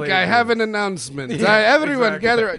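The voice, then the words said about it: Muddled put-on Greek accent. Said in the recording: “your best Greek accent? ... it's muddled.”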